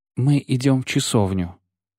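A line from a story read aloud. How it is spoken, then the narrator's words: Quiet announcement. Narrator (Russian): известила тихим голосом чародейка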